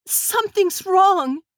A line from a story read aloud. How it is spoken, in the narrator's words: She cried out in terror